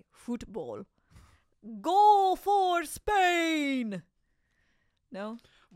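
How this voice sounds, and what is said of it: Put-on Spanish accent, commentator style. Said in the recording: “What accent was that? ... It's this, the guy's house I was staying in Spain. ... I thought that was a Hungarian commentator.”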